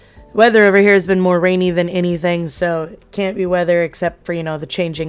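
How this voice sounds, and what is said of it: Voice not fully recovered. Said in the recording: “my voice isn't even still 100% back, and it's been about a month since I had COVID”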